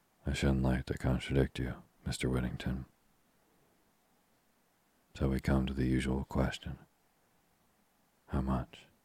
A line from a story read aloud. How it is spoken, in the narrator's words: Tuppence said softly